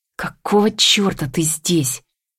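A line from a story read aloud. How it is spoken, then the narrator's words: Angry whisper. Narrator (Russian): Шепчет сердито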